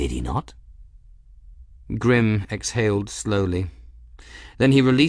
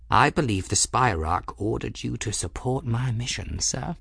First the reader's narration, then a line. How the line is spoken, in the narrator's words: Ferris said quietly